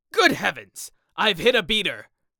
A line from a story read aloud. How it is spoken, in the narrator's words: exclaimed Sir Geoffrey